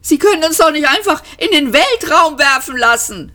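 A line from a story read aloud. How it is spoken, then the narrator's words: Shouting. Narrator (German): schrie Ford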